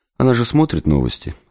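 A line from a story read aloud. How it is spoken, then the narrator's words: Calm reply. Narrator (Russian): спокойно ответила Светлана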